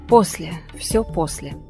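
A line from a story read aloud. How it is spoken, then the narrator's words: Sighing mumble. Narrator (Russian): вздыхала, бормоча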